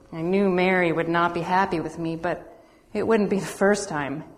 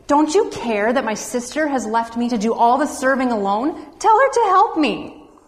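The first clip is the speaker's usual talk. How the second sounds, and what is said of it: Bossy big sister voice. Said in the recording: “in my best big sister voice”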